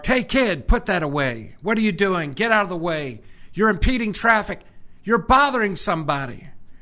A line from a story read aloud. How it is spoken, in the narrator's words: One pedestrian barked